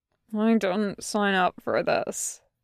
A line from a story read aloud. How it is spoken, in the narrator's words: Tucker mumbles